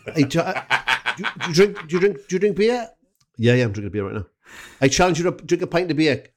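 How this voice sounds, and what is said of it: Put-on Welsh Valleys accent. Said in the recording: “Why don't you do a Pontypridd accent... I'll do much Pontypridd slash Merthyr. It'll be a bit of a mix.”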